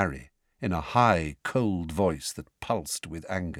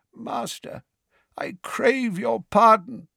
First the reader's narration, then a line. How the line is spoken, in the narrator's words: croaked the man kneeling on the floor